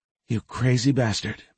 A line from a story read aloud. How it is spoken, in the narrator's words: Magnolia whispered